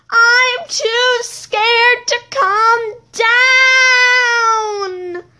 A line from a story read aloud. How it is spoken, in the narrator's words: had screamed